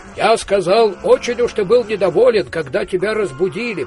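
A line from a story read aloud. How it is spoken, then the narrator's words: Shouting. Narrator (Russian): прокричал Коин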